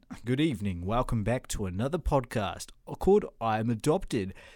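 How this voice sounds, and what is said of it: Put-on golden radio announcer voice. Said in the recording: “I don't have that exact golden radio voice, as in ... I can't talk like that the whole time. It actually is not very comfortable”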